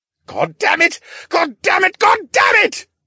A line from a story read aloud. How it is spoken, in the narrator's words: the scientist screamed